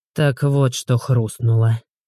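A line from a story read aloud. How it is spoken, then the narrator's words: Gloomy man's voice. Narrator (Russian): мрачно произнес мужик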